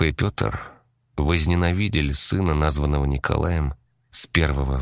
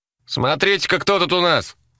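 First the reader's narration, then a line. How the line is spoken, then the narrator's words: Yelled. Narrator (Russian): заорал Володька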